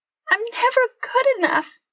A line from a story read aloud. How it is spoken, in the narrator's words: Candy sobbed into Jackson's chest